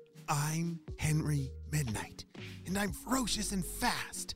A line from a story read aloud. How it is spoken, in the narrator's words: he whispered to himself